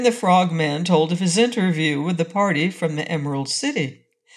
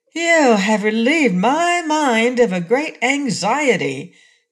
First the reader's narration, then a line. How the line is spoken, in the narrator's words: declared the patchwork girl, now speaking more cheerfully